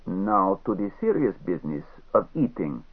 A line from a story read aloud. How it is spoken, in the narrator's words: with an accent as thick as the Neva outside